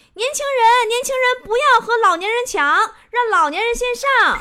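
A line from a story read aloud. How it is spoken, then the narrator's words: Tour guide shouting. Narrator (Chinese): 导游就大喊呐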